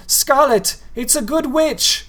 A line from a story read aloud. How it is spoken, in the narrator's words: he shouted after her